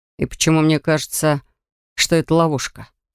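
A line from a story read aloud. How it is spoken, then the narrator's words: Mumbled. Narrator (Russian): пробормотал Драфок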